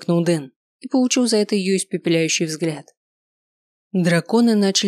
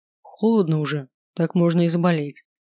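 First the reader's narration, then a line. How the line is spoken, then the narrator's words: Gloomy remark. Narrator (Russian): мрачно заметил Маркус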